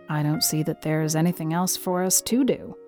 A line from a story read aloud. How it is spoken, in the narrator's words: said Marilla rather grimly, although she felt a secret relief